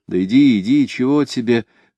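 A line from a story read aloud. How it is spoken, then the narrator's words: Whispered prompts. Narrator (Russian): подсказывали шепотком с разных концов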